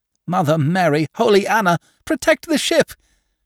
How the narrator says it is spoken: shrieked the fat soap maker

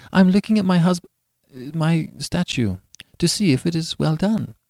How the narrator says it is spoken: she stammered

